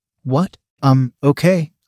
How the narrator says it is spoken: I stammered

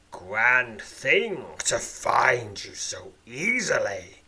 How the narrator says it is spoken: grumbles the ogre-headed worm

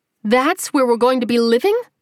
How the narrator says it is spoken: she exclaimed

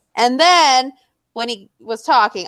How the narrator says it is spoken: I cried

